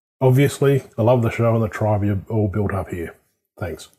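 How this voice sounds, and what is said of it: Australian accent. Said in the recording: “that amazing Australian accent”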